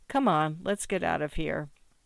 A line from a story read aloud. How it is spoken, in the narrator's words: Morton said quietly